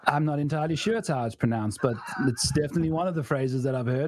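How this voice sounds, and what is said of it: South African accent. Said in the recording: “Holy fuck, this guy's South African.”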